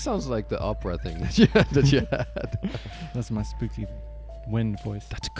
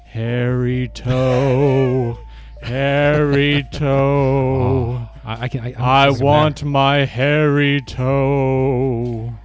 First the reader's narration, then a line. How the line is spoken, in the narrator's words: a hollow voice rumbled